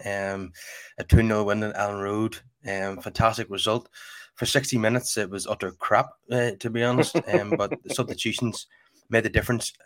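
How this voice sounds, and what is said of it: Voice sounds ill. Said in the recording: “as you can probably tell by my voice, I'm a bit under the weather”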